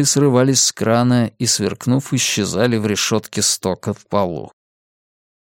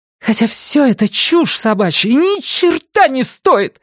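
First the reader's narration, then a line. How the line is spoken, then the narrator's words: Shouted. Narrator (Russian): выкрикнула Сага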